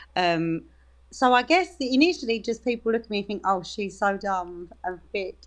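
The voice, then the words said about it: Natural Dagenham English accent. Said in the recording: “speak in your natural accent ... my accent is my accent. I'm from Dagenham”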